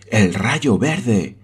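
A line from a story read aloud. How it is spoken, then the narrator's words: Exclaimed. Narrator (Spanish): exclamó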